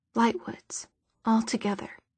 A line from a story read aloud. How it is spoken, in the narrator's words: she whispered